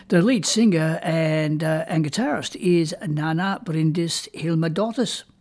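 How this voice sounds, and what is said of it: Put-on Icelandic accent. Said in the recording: “Hope you're impressed with my Icelandic accent there.”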